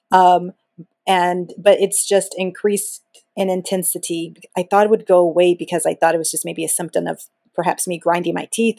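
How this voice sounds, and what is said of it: Groggy, tired-sounding voice. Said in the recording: “I sound a little groggy”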